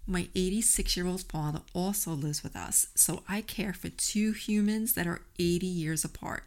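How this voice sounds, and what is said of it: New York accent. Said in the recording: “as you can tell from my accent, I am a New Yorker, living first in Brooklyn and then Staten Island”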